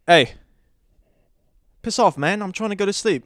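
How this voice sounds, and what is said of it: Put-on polite British accent. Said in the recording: “I tried to tell it politely at first, hence the British accent.”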